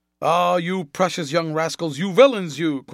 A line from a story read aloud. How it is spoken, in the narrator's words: cried the lieutenant